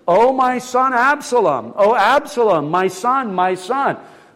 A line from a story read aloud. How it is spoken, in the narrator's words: the king cried out with a loud voice